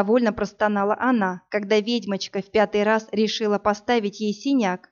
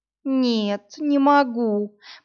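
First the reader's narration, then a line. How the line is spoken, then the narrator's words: Moaning young woman. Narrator (Russian): простонала девушка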